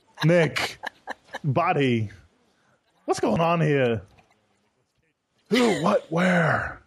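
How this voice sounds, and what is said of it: Nicolas Cage impression. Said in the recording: “that's really the only Nicolas Cage voice I can do.”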